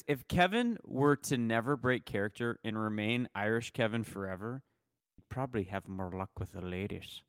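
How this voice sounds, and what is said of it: Bad put-on Irish accent. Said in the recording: “A terrible fucking accent there”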